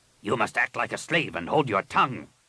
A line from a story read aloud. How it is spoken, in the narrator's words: Rapung snapped